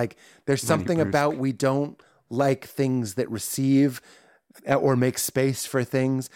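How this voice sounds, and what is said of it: Usual voice. Nothing is said of it.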